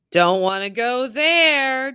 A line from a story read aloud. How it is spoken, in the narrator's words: Juby wailed